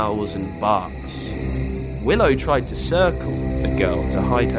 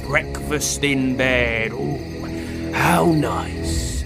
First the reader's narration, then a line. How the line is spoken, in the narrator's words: he growled, drool coming down his muzzle